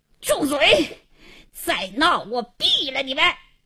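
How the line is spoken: Hoarse angry shout. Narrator (Chinese): 王经理气得嘶哑着嗓子喝道

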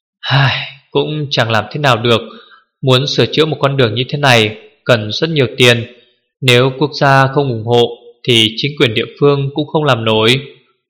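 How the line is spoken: Sighing. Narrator (Vietnamese): Hứa Nhược Thần thở dài

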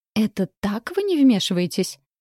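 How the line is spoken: Indignant exclamation. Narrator (Russian): с возмущением воскликнула

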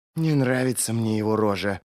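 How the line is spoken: Muttering. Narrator (Russian): пробормотала она Бренду

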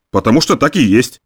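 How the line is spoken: Snorting. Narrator (Russian): фыркнул Замойский

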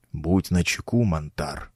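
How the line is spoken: Whisper in the ear. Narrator (Russian): шепнул мне на ухо учитель

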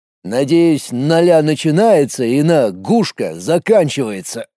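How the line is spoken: Grumbling. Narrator (Russian): проворчал Колян

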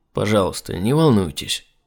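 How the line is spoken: Calm doctor's reply. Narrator (Russian): совершенно спокойно ответил доктор

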